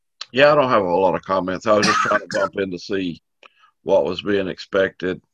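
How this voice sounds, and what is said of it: Smooth radio-announcer voice. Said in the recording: “you got that radio voice”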